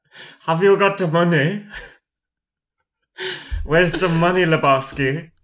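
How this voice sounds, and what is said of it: Imitates a film character's voice. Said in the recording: “your Nihilist impression ... the Nihilist impression”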